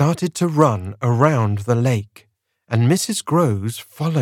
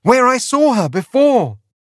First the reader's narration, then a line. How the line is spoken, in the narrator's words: cried